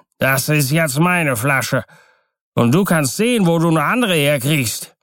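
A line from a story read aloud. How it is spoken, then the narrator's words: Calling out again. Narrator (German): rief noch einmal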